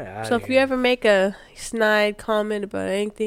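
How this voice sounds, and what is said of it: Usual voice. Nothing is said of it.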